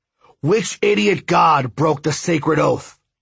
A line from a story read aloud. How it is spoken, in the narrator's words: he roared